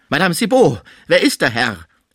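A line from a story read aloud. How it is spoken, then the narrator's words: Shuddering, shocked call. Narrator (German): rief er, beim Anblick des regungslosen Frisier von einem Schauer ergriffen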